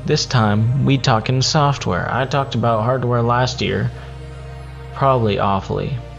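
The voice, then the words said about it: Put-on twang accent. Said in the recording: “accent? I'm put on, you know, this twang.”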